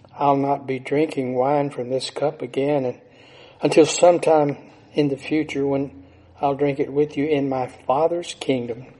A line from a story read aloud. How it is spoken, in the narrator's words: Jesus then sadly reported